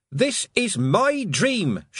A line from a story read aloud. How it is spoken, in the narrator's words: she shouted at the sky